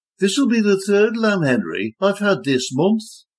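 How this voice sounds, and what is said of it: Nasal Birmingham accent. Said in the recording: “nasal Brummy accent”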